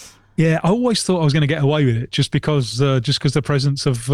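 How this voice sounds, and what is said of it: Usual voice. Nothing is said of it.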